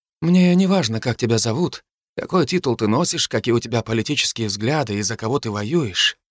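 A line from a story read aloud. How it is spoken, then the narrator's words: Melodious voice. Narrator (Russian): сказал он мелодичным голосом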